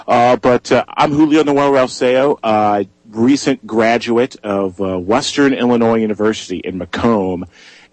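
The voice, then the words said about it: Slightly raspy voice. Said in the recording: “I got a little bit of a raspy voice today”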